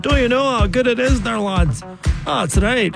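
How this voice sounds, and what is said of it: Put-on Scottish accent. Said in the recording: “Makes me want to say that in a Scottish accent.”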